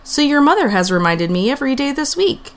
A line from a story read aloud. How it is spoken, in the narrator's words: he said with a chuckle